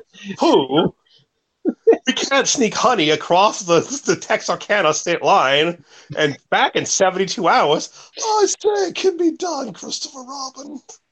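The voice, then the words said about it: Imitates another person's voice. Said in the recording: “That's an insanely good Sterling Holloway impersonation. Like your best yet.”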